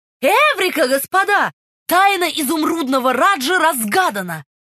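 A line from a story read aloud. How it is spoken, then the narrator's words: Shouted. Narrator (Russian): Свит Чайлд крикнул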